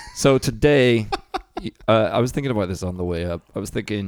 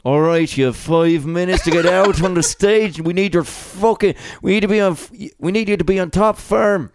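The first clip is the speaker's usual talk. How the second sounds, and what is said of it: Poor put-on Dublin accent. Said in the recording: “That's my Dublin accent. It's fucking dreadful.”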